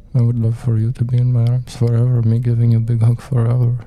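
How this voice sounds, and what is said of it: Vague, indistinct put-on accent. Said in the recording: “I don't know what this accent is. I hope it's not offensive to nobody. ... it's very, very indistinct. ... Accent.”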